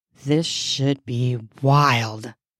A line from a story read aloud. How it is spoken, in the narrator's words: I muttered